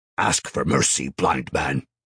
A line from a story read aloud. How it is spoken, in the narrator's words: Titus barked out